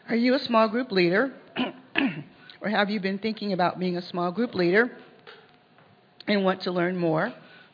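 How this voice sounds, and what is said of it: Hoarse, throaty voice. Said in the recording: “I have a frog in my throat.”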